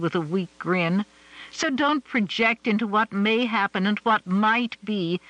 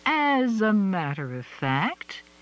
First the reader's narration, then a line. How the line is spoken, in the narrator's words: she drawled sweetly